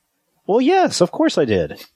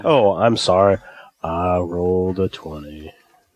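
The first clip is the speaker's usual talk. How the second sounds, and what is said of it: Mopey Eeyore impression. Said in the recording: “You don't sound quite remorseful enough. ... That's better. ... That's Eeyore.”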